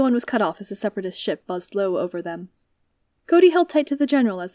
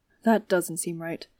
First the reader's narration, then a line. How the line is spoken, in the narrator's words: Cody muttered, frowning